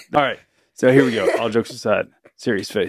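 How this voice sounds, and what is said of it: Deep serious radio-announcer voice. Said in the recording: “that voice? ... that was my serious radio voice. ... You sound like a middle-aged dad. ... Like a middle-aged country.”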